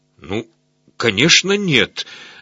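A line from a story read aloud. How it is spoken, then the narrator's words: Stammering. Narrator (Russian): заикаясь, произнес он наконец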